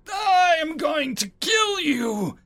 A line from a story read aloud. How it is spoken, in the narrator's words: I bellowed